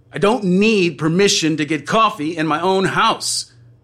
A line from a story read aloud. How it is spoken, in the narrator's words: you shout